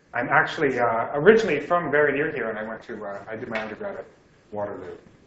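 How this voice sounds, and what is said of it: Thick Australian accent. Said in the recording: “my thick Australian accent”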